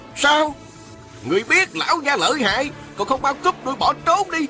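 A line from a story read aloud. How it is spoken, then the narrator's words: Rough scolding. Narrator (Vietnamese): Một giọng thô lỗ quát mắng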